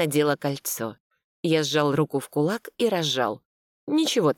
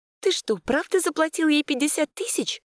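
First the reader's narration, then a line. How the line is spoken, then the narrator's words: Bewildered exclamation. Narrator (Russian): недоуменно воскликнула Вася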